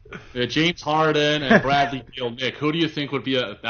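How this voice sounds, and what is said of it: Australian attempting American accent. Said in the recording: “That wasn't too bad. That was better than that time you tried it with me and Matt ... I'm going to just do the American accent”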